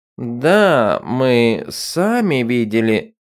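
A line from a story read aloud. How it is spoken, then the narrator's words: Mumbling. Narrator (Russian): промямлил Хашус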